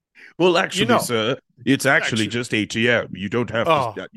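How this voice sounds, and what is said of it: Put-on pretentious know-it-all accent. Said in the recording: “I don't know why you felt the need to add the accent, but it's good. It's good. ... That's my pretentious accent. ... you just sound like this, as if you know everything you should know about everything”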